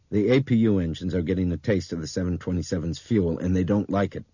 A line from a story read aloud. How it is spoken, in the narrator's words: Brian said